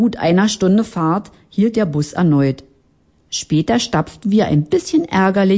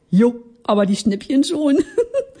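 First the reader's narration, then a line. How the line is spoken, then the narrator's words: Giggling. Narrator (German): kicherte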